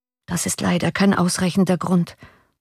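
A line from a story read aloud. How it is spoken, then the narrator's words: Girl murmuring. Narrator (German): murmelte das Mädchen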